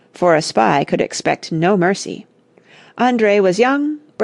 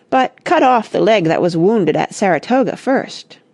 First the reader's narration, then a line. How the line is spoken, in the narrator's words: they cried